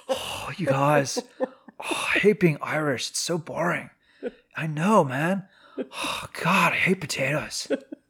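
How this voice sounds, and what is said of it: Poor mock Irish accent. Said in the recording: “your characters all sound like Napoleon Dynamite ... I don't know how to really do a good Irish accent”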